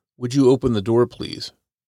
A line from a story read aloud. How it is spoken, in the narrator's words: The man's words were polite, but his tone was clear